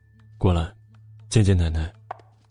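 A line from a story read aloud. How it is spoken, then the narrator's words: Calm, indifferent. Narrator (Chinese): 穆萧寒 淡淡的说了一句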